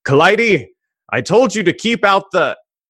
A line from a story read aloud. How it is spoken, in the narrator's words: and you hear him yell